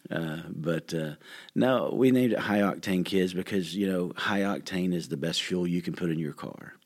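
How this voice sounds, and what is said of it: Relaxed, soothing radio voice. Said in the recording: “my voice is very relaxing and very, I've been told it's soothing... Great radio voice.”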